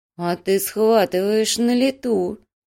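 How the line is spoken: Girl's slow drawl. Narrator (Russian): медленно протянула девушка

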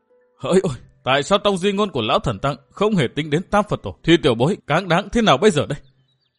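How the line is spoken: Choked muttering to himself. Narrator (Vietnamese): Chàng nghẹn ngào lẩm bẩm một mình

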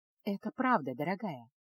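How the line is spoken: Soft, soothing. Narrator (Russian): мягко произнесла Эреда

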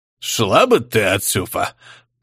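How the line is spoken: Muttered through teeth, unsure. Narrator (Russian): процедил, но без должной уверенности

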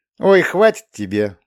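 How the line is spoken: Laughing. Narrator (Russian): Настя, засмеявшись

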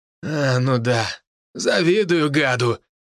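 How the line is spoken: Grumbling. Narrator (Russian): ворчал водитель

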